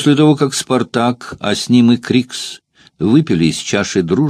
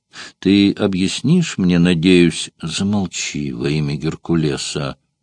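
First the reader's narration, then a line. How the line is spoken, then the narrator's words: Low-voiced interruption. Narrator (Russian): Вполголоса прервал его Спартак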